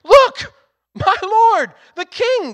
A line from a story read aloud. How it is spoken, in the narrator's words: Gehazi exclaimed